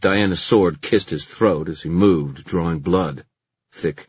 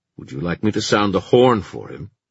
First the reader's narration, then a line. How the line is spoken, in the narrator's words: Gwyn had sounded sincere enough to Kit